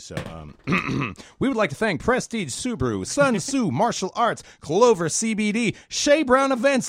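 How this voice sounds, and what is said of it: Announcer-style radio voice. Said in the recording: “do this in radio voice”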